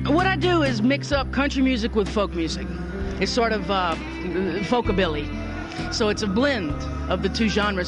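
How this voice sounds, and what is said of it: Southern American accent. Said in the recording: “I do have the southern accent going”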